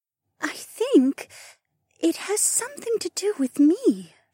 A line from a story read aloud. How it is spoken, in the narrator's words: she whispered, as if divulging some secret she hadn't managed to put to words yet